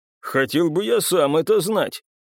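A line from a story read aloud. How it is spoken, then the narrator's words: Snorting chuckle. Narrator (Russian): хмыкнул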